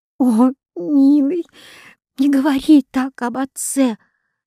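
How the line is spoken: Sobbing sister. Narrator (Russian): сказала, рыдая, сестра

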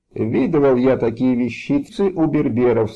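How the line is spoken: Plain. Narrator (Russian): сказал он

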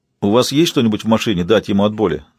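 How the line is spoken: Plain question. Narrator (Russian): спросил детектив Тони

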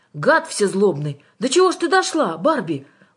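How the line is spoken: Exclaiming with sympathy. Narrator (Russian): воскликнул Жан, и в его голосе прозвучало что-то вроде сочувствия

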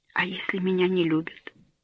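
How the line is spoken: Sighing whisper. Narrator (Russian): со вздохом прошептал Этьен

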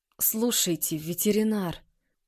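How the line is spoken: Groaned. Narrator (Russian): простонал Тарас

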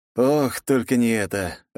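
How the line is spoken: Resigned sigh. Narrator (Russian): обреченно выдохнул я

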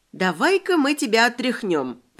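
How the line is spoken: Cooing. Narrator (Russian): проворковала я

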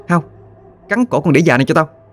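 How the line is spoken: Girl shouting. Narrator (Vietnamese): giọng cô gái quát

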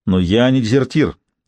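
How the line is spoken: Sharp sudden interruption. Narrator (Russian): неожиданно резко перебил его солдат

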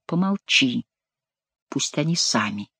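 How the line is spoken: Whisper. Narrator (Russian): Бюсси шепнул

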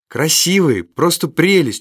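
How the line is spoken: Delighted girl shouting. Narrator (Russian): восхищенно крикнула девчушка

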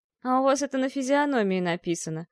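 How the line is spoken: Gloomy stung reply. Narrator (Russian): мрачно ответила Ольга, задетая насмешкой

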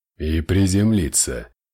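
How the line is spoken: Gloomy. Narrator (Russian): мрачно закончил Ортонс

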